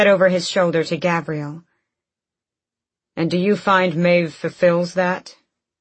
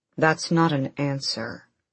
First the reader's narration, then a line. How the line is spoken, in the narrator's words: Adian said quietly